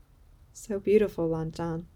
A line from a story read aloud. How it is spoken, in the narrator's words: he murmurs